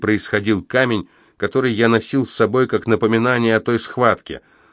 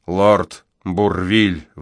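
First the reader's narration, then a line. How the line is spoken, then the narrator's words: Sigh. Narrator (Russian): вздохнул он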